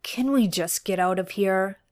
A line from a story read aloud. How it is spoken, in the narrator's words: Dean sighed